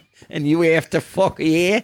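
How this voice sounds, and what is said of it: Put-on accent. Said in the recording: “sorry about the accent at the end there ... it's hard to maintain.”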